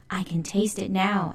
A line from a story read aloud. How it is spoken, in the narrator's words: Alley Cat exclaimed